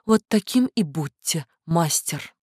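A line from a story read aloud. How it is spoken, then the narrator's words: Whispering. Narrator (Russian): прошептала в подбородок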